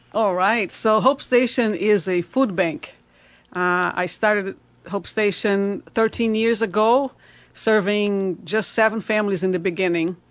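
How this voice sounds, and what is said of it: Brazilian accent. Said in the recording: “I like your accent... Me too... Yeah, beautiful.”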